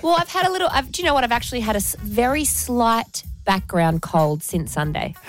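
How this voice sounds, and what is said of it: Slightly hoarse voice. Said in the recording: “You're a bit hoarse.”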